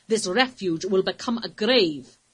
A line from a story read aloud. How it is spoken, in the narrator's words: he replied sternly